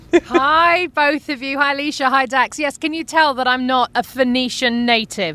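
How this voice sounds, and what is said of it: British accent. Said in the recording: “the accent says UK. ... 1,000% ... as you can tell from my accent? ... Just a bit.”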